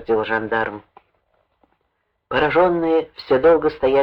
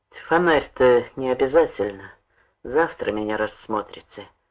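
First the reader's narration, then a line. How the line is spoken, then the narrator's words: Tired, indifferent. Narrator (Russian): он сказал устало и безразлично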